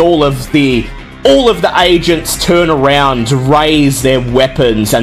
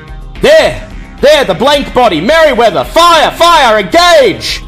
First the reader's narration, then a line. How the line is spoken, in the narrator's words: a voice shouting